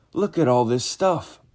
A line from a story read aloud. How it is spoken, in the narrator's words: I cried out